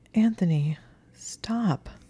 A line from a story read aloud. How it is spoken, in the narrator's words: she said in a shaking voice